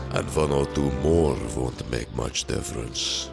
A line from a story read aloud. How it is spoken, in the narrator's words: growled Beorn